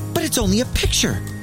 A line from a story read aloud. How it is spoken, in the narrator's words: she exclaimed with surprise